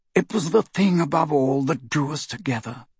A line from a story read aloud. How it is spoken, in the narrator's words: he said quietly